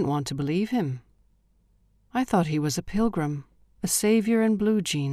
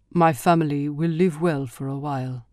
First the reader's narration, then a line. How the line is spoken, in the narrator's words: he said